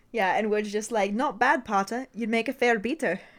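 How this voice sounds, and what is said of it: Bad put-on British accent. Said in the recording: “try my terrible accent ... your terrible accent”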